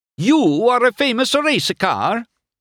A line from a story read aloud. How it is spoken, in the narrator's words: Luigi cried, brightening